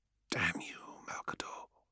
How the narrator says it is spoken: he whispered

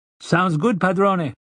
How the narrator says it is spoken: Adams said in his heavy accent

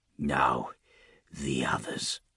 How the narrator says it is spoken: Morbus hissed

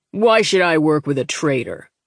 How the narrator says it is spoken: the commander asked

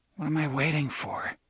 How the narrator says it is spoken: muttered

